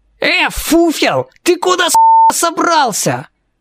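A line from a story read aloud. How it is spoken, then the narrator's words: Yelling. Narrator (Russian): Завопил один из четверки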